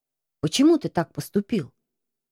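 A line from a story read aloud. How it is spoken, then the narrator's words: Whispered. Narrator (Russian): Крыса прошептал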